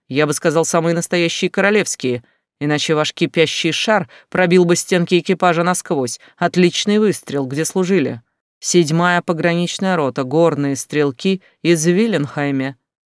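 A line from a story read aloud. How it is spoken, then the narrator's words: Short snort. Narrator (Russian): коротко хмыкнул Бонд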